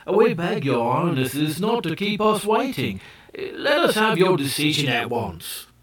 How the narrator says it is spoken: the Ki Ki grew impatient and exclaimed

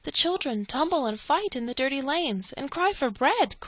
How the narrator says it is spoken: cried Poppypink

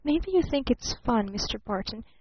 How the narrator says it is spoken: she whispered

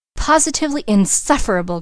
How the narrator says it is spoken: cried Mrs

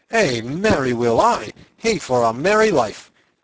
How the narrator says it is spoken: cried

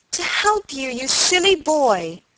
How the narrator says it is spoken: cried Helen

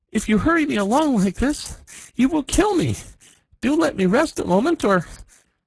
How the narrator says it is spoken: at last he gasped out

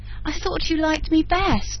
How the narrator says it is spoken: with an upward, sobbing breath

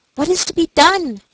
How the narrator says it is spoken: she kept exclaiming

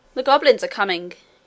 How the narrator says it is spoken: he said

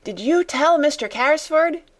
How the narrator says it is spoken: Donald shouted again

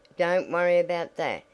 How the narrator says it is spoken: he answered

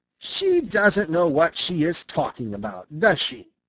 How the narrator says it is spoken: asked Peter

